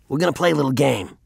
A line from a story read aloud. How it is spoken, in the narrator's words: say in a brusque voice